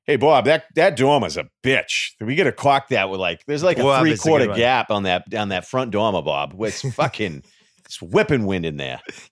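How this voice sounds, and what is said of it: Cape Cod Massachusetts accent. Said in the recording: “the Cape accent, I usually can do that one because I worked with all these Cape Cod framers”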